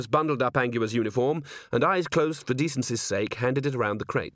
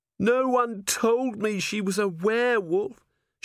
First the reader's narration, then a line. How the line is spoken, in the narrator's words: Cherie moaned